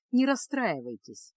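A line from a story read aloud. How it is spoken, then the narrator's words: Soft smiling tone. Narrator (Russian): мягко улыбнулся Реммао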